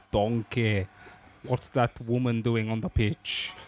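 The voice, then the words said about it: Scottish accent impression. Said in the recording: “Can you do the accent? Can you do the accent for us? ... He's Scottish, right? ... Yeah.”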